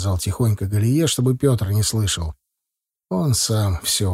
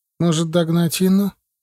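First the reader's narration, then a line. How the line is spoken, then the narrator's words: Uncertain suggestion. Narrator (Russian): неуверенно предложила Галия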